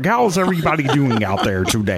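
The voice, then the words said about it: Kermit the Frog character voice. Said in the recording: “my only imitation ... I kind of do Kermit the Frog”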